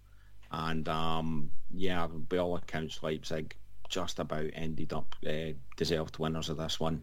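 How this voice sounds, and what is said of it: Scottish accent. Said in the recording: “In that Scottish accent of yours”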